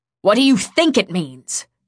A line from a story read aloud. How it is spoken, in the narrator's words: she snapped